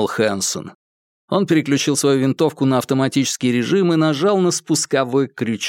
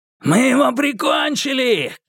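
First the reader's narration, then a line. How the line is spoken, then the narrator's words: Shouting. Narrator (Russian): крикнул Брубейкер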